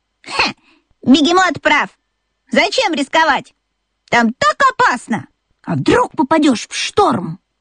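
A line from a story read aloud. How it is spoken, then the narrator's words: Exclamation. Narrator (Russian): воскликнула Чита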